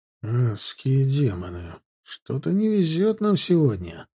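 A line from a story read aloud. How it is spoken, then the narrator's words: Sighed. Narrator (Russian): вздохнул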